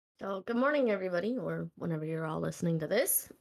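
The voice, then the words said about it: Congested, hoarse voice. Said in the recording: “excuse my voice ... cold equals me draining and losing my voice”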